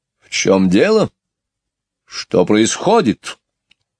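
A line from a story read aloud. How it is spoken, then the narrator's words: Sudden sharp question. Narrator (Russian): вдруг резко спросила Мэри Поппинс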